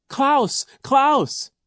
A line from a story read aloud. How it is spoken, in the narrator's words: Isadora cried